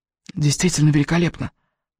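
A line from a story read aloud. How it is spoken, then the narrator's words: Whispered into ear. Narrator (Russian): прошептал он прямо в ухо Элис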